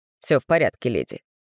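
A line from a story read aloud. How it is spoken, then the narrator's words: Dry man's remark. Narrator (Russian): сухо обронил мужчина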